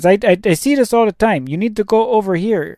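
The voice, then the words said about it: Put-on foreign accent. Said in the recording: “why am I giving him an accent? He was Mexican. That's what accent was I doing there?”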